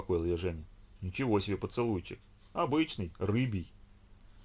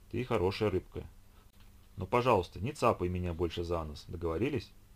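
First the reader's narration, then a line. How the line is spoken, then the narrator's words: Tender. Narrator (Russian): ласково произнесла Ольга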